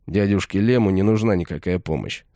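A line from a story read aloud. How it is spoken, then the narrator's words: Plain. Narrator (Russian): сказал я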